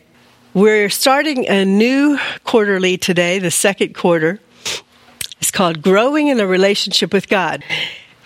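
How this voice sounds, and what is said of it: Sick, strained voice. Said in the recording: “I have to explain that I'm ill, so pardon my voice”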